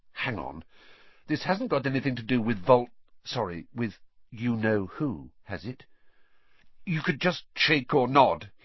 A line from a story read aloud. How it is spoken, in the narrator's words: he added hastily